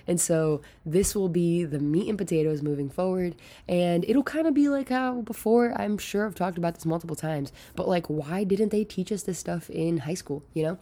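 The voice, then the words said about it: Hoarse voice. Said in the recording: “I don't know why my voice sounds so hoarse today”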